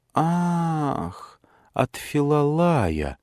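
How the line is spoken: Drawn-out drawl. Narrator (Russian): протянула Евклия

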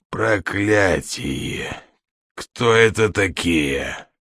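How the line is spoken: Hoarse rasp. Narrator (Russian): прохрипел другой человек

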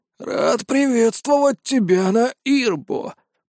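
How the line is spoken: Creaky old man's voice. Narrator (Russian): проскрипел старик

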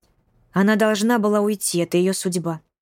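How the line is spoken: Calm. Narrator (Russian): спокойно ответила она

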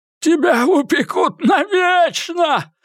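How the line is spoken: Howling. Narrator (Russian): взвыл Эдди

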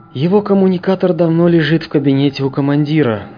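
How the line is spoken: Sighed. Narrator (Russian): вздохнул Сергей

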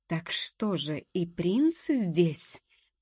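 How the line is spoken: Satisfied hiss. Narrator (Russian): продолжал довольно шипеть Ранункуло

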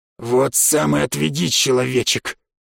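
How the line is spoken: Growling. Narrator (Russian): рыкнул на меня бывший шептун

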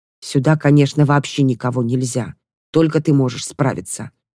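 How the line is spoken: Babbling mumble. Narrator (Russian): забормотала Кера какую-то ерунду

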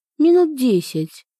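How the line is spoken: Calm businesslike report. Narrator (Russian): сообщила, как всегда, деловито и спокойно

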